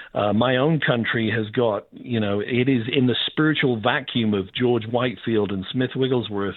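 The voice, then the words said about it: Speaks with a noticeable accent. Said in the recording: “as you can tell, I got a funny accent”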